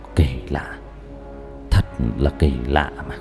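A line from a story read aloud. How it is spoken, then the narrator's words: Pensive soft mutter. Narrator (Vietnamese): Cao Biển mặt đăm chiêu suy nghĩ, miệng khẽ lẩm bẩm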